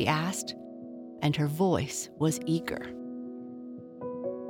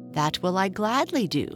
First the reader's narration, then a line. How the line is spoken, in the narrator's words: said Joyful eagerly